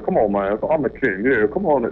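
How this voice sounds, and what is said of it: Slurred Elvis impression. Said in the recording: “he does this Elvis impression where he's really slurring his word ... Like that”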